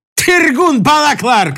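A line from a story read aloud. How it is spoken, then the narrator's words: Shouting. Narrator (Russian): крикнул гость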